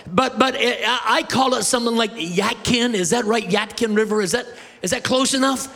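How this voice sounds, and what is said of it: Canadian accent, words run together. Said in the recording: “I am a Canadian, man, I have lived in Maine, I've traveled around the world, and so my accent is terrible ... my words run together”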